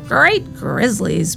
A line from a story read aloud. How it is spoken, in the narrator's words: moaned the old man